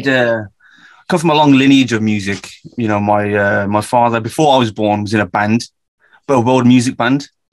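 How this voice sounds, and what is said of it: Birmingham English accent. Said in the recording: “as you can tell from my accent, I'm from the UK, a very specific part of the UK called Birmingham”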